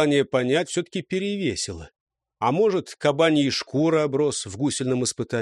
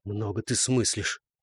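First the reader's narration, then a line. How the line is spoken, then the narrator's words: Grumbling aloud. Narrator (Russian): Вслух Светил буркнул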